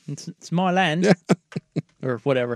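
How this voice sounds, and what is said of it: Cheeky put-on British accent. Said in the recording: “That was the cheekiest British accent ever ... your British Scottish accent ... That's not Scottish.”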